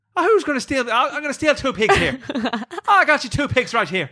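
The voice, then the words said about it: Put-on Irish accent. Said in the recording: “can you do it in an Irish accent, though?”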